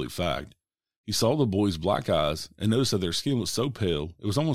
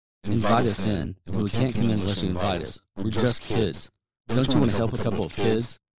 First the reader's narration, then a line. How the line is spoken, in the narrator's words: His voice sounded distorted and like there was more than one person speaking